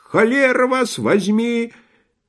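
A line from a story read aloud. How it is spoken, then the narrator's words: Shrill woman shouting. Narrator (Russian): визгливый женский голос, кричавший на них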